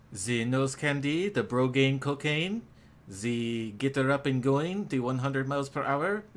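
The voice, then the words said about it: Heavy exaggerated put-on accent. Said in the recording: “Your accent is a bit much.”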